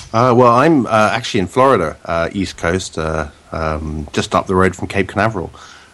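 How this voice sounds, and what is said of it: British accent. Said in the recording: “it's not a particularly local Floridian accent ... the British accent”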